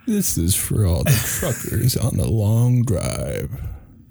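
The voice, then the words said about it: Smooth late-night radio DJ voice. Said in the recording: “I just want some smooth. Give me ... jazz. ... Some of that smooth radio voice.”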